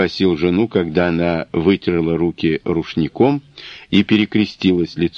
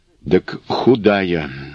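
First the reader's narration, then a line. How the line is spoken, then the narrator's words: Muttered. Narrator (Russian): бормотнула Милания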